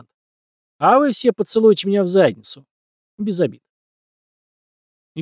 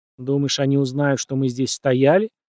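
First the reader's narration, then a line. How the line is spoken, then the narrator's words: Grumbling. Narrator (Russian): проворчал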